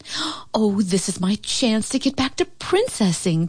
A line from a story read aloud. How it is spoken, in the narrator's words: Paulina cried